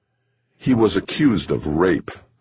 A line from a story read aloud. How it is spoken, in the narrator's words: said the woman across the table from Jamie, her tone hard, cold